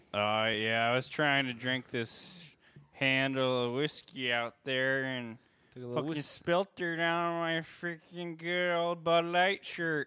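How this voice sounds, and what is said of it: Slurred drunken speech. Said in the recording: “There's a strong smell of harder liquor on you... You sound like you're slurring your words a little bit”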